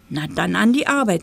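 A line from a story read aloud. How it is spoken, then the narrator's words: Mouse knight hissing. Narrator (German): zischte der Mäuseritter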